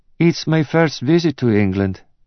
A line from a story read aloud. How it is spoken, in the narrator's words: said nervously